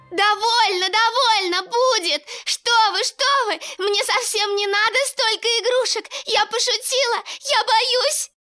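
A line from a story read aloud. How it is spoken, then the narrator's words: Terrified scream. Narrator (Russian): В ужасе закричала Женя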